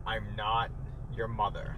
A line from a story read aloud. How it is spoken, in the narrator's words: she, like, very sternly goes